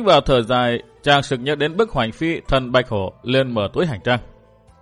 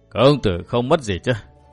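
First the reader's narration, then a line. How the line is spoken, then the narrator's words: Old man, smiling. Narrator (Vietnamese): Lão nhân nhìn Minh Bảo mỉm cười nói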